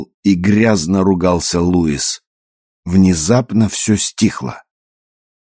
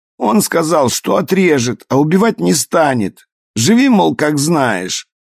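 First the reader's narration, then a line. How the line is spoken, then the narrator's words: Sobbing, pleading excuse. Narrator (Russian): Всхлипывая, оправдывался он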